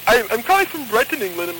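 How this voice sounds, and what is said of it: Bad fake English accent. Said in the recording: “That is the worst accent I've ever heard”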